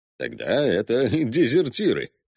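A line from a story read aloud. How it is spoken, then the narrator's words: Chuckling. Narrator (Russian): хохотнул Руппи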